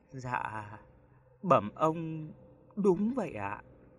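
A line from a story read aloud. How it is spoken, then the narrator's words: Soft, trembling frightened reply. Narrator (Vietnamese): Anh phu xe cả người run lên bần bật, giọng run run đáp khẽ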